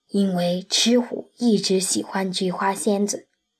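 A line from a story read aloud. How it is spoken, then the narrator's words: Hushed. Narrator (Chinese): 杨永乐压低了声音说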